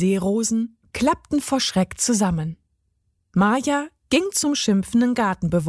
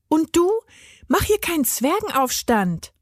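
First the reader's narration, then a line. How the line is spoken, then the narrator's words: Calling out. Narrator (German): rief sie ihm zu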